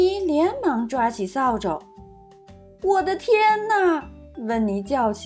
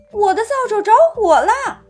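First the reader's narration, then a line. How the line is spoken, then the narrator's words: Crying out. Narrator (Chinese): 温妮叫道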